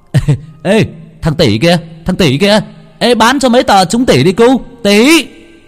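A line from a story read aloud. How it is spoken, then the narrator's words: Loud teasing shout. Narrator (Vietnamese): mấy đứa bạn hét to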